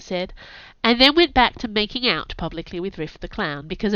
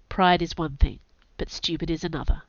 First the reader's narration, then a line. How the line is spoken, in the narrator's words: said, in a very low voice